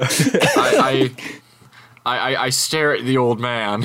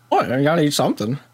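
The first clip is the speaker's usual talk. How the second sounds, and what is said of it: Old man character voice. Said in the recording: “old man voice”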